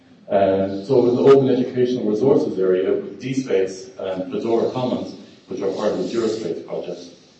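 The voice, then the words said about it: Non-local accent. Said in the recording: “you probably guessed from my accent, I'm not local”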